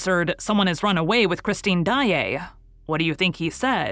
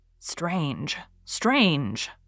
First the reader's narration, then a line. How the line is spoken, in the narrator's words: muttered Gabriel, who could not help shivering